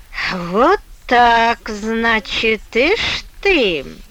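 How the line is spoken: Drawling. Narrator (Russian): протянул Мишуков

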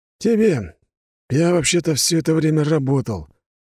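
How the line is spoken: Calm reply. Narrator (Russian): спокойно ответил блондин

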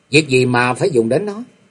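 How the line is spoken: Smiling. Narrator (Vietnamese): Kế quan mỉm cười nói

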